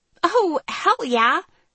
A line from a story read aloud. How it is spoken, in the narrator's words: Riley exclaimed